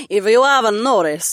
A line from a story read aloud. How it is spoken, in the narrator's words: Mira chuckled